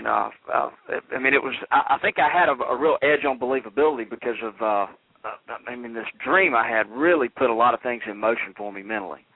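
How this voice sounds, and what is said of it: Southern US accent. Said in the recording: “I can hear your accent, so I know that you're kind of from the South.”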